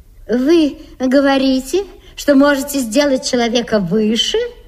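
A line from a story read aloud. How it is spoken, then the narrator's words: Plain question. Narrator (Russian): спросила та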